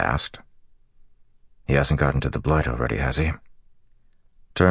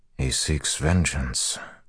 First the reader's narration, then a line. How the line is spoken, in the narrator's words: Rand said softly